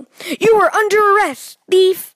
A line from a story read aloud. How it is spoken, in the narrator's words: The detective shouting